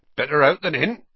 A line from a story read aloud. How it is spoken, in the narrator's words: he said cheerfully